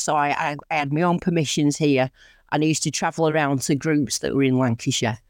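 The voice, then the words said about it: Northern English accent. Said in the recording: “I am from Lancashire. As you can probably tell from my accent, I'm quite northern, from around the Rochdale, Oldham area”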